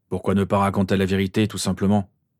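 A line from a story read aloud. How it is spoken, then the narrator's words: Grumbling. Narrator (French): grogna James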